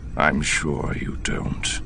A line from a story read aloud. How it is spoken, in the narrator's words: Thrawn said, his voice deadly quiet